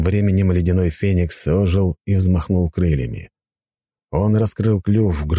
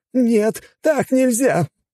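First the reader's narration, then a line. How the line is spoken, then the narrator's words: Howled. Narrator (Russian): взвыл один из них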